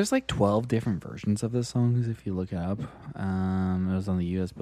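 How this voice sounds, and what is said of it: Usual voice. Nothing is said of it.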